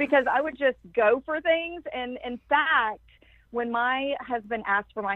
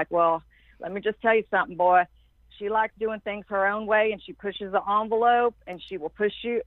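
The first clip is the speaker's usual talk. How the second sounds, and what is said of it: Strong Southern accent imitation. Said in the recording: “has this strong Southern accent.”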